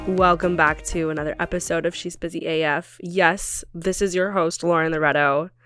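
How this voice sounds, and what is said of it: Deeper than usual, cold-affected voice. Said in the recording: “My voice is a little bit deeper than normal right now because I'm getting over a cold.”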